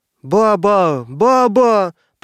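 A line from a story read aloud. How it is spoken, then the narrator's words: Shrill child's shouting. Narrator (Russian): продолжала покрикивать визгливым голосом малютка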